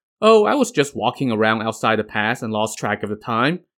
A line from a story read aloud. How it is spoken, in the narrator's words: Ne Zha said